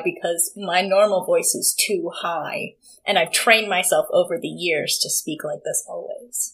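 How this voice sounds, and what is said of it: Low creaky vocal fry register. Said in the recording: “instead of like talking in a normal register, like I don't know, like whatever's most comfortable for you to talk in, go like two steps deeper and that's vocal fry. So I currently am speaking in vocal fry”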